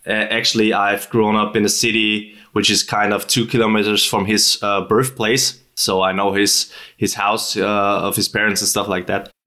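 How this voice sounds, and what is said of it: Austrian-accented English. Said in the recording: “I'm from Austria, as you might hear from my dialect, especially talking not like Schwarzenegger, but a bit like him.”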